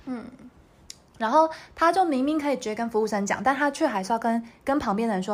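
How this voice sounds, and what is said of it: Usual voice. Nothing is said of it.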